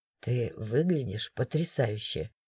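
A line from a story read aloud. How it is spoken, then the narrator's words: Soft. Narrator (Russian): мягко произнес он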